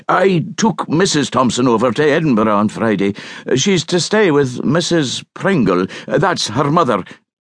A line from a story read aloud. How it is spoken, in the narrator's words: he added hastily